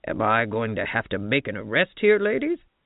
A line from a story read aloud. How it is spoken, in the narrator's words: he asked in his gruffest voice